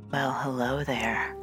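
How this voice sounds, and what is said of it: Attempted sexy voice. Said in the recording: “I was trying to use my sexy voice.”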